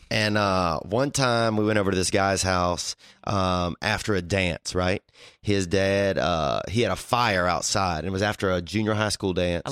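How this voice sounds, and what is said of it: Thick Louisiana bayou accent. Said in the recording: “I love how your accent gets thicker the more... You just went completely bayou.”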